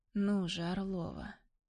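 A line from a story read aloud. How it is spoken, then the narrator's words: Low, hoarse voice. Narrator (Russian): Его голос низкий, хриплый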